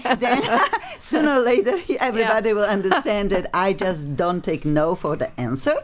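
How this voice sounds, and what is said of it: Very heavy foreign accent. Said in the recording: “obviously I have a very, very heavy accent”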